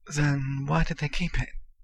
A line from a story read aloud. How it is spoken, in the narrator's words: Harry asked faintly